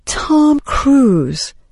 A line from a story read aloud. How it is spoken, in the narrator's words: Emily paused for effect, then answered solemnly